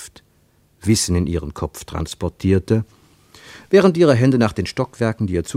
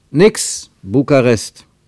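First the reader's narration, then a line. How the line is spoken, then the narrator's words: Calling out. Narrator (German): rief er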